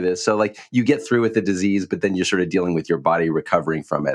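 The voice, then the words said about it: Low, slightly raspy voice. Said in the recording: “I'm talking too low. The register of my voice is down ... lower voices ... raspier”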